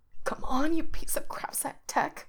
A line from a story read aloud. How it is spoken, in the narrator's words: whispers frantically